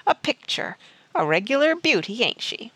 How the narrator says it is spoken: the ruffian chuckled

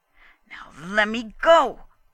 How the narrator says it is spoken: Gustrason growled

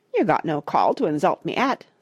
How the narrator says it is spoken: said the toad, in a hurt tone of voice

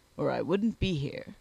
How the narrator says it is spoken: replied Sponge, adding with a grunt

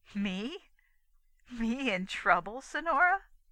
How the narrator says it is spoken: A little laugh that was half gay, half derisive, accompanied her words

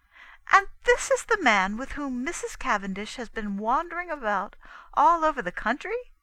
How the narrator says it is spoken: I cried indignantly

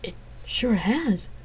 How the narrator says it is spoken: he agreed softly

